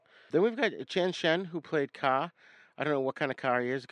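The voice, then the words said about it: New England accent. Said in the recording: “That's my New England accent kicking in”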